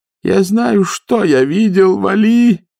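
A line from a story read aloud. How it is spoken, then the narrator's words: Groaning. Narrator (Russian): простонал он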